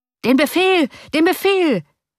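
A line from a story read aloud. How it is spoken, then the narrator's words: Thousands of voices shouting. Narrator (German): schrien mehrere tausend Stimmen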